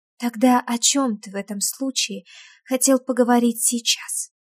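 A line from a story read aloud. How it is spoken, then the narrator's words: Quiet. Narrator (Russian): тихо произносит Вика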